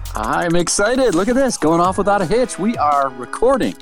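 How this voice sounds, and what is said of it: Radio announcer style voice. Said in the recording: “you are using your recording voice, and you sound like a radio studio, like doing the 5 o'clock drive home”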